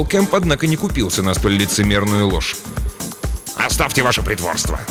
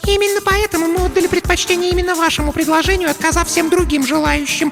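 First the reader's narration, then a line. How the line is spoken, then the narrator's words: Squeaked. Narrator (Russian): пискнула Марлис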